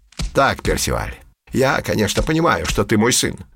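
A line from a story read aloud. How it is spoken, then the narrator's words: Grumbling. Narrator (Russian): проворчал Пушок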